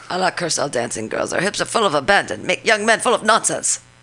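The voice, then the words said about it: Fake Asian-accented character voice. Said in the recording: “that was like my Asian fake voice for crazy women”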